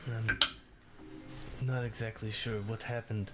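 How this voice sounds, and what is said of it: Poorly done put-on accent. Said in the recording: “doing that accent is fucking difficult. A terrible accent.”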